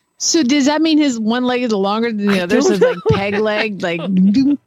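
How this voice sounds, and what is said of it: Southern US accent, Oklahoma-tinged. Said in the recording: “my southern accent from Georgia is becoming a little too Oklahoma”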